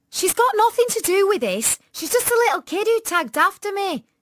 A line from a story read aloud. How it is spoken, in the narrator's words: said Tanya fiercely